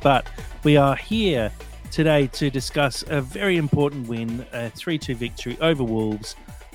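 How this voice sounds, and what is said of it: Talking very loudly. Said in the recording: “and I'm talking very loudly”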